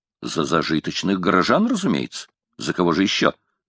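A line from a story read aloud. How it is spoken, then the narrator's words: Plain. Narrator (Russian): ответил шотландец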